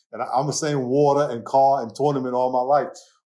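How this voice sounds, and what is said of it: New York accent. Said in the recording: “she heard my accent and my New York accent ... I'm holding on to my New York accent”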